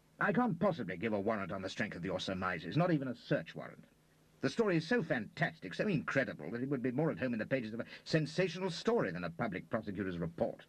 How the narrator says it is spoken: he said a little irritably

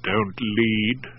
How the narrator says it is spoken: I grumbled

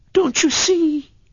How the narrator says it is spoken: sobbed Kismine hysterically

